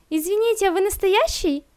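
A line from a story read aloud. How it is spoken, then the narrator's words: Squeak. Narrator (Russian): Пискнула та, что с синими волосами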